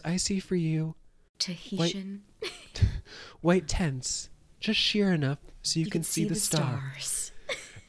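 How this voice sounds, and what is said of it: Soft J-Lo acting voice impression. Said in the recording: “my least favorite J-Lo acting, when she does her soft acting voice.”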